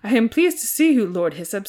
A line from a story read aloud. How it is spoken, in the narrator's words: he said in a regal voice